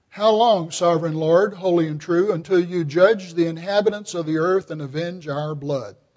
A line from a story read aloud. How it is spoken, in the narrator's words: They call out in a loud voice